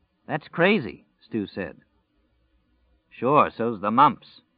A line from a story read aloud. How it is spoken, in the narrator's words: Glenn Bateman said dryly